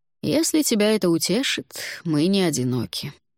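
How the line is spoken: Sighing. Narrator (Russian): вздохнул Алвар

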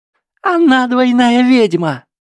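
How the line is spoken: Shrill cracking scream. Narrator (Russian): завопила Трейси настолько высоким голосом, что он сорвался

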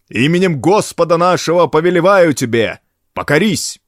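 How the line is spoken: Loud command. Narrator (Russian): громким голосом приказал

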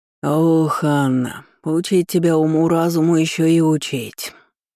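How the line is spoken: Grumbling from afar. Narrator (Russian): проворчали с террасы

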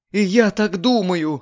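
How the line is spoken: Sobbing. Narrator (Russian): рыдала Лидия

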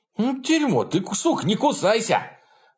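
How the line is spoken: Shouted. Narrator (Russian): выкрикнул он

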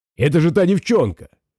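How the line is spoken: Exclamation. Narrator (Russian): воскликнул Джинго

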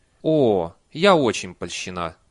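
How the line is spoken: Sighing. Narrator (Russian): Нянюшка вздохнула

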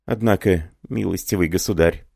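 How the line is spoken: Trembling, tearful, tender whisper. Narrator (Russian): прошептала Леонида дрожащим голосом, отирая слезы умиления

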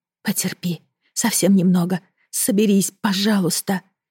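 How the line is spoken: Weak exhausted whisper. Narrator (Russian): шептала из последних сил

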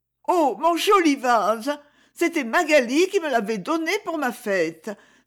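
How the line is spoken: Dismayed exclamation. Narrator (French): s'écria Isabelle, consternée

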